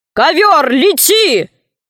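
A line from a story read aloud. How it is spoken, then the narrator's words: Shout. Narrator (Russian): крикнул Синдбад-мореход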